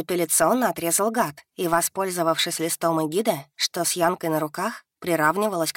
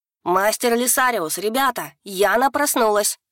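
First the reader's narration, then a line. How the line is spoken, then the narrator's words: Very loud yell, little dragon. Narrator (Russian): Завопил дракончик так, что заодно со старичком-молотком крик должны были услышать и все студенты Академии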